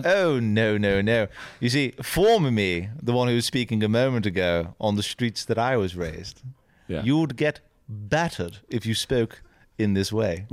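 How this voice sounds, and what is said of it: Exaggerated posh English accent. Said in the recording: “Your accent does sound a little English, though ... I can go more English, if you would prefer. ... Oh, a little posh? ... Oh, yes.”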